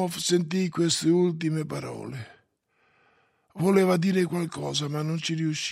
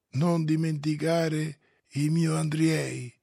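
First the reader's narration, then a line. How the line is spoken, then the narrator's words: Faint dying voice. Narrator (Italian): furono le ultime parole di Oblomov, dette con voce spenta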